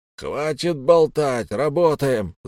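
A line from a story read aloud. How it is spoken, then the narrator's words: Yelling. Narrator (Russian): заорал крюкомет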